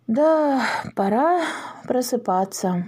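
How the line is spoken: Sighing. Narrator (Russian): вздохнул Огурцов

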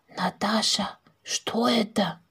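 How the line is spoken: Confused whisper. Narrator (Russian): Соседка растерянно выпрямилась и прошептала

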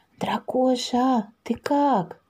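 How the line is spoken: Whispered question. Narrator (Russian): шепотом спросила Маша

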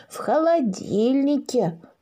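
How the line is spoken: Joyful, little dragon. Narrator (Russian): радостно кивнул дракоша

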